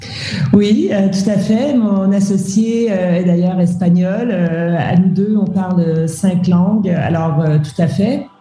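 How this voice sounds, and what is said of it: Slight French-Canadian accent. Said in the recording (French): “On entend à ta voix ce petit accent canadien ... tu es euh, franco-canadienne”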